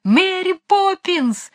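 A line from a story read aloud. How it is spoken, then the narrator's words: Shouting at full voice. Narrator (Russian): закричали изо всех сил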